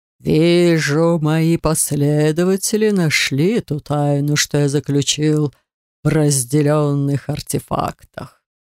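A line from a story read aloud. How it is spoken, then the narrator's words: Eerie sepulchral ghost voice. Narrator (Russian): жутковатым замогильным голосом произнес призрак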